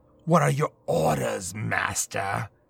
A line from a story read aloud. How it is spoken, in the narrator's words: Alistair asked with a growl